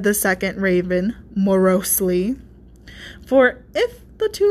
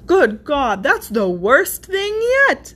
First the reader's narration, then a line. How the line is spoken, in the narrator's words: cried the first raven